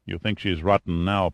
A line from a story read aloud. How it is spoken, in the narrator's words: Pitt muttered